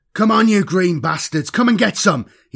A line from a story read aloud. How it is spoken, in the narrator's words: yelled over the roar of the bike's engines